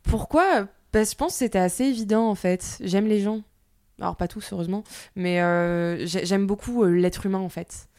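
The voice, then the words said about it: Southern French accent. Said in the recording (French): “J'ai l'accent du sud qui est revenu.”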